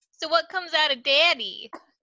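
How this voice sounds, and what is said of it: Special put-on voice. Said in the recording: “said in this special voice, which is why I just said that like I did”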